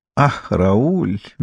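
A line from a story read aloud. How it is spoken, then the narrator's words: Dreamy drawl. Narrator (Russian): мечтательно протянула Мирна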